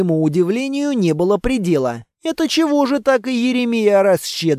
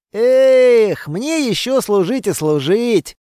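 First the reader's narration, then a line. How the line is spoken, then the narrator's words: Chuckling. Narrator (Russian): хохотнул Кейко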